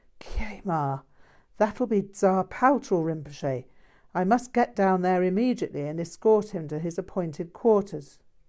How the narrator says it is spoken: The abbot, knowing something of Tsar Paltrow's style, gasped

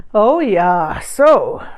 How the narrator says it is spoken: Rinpoche chuckled

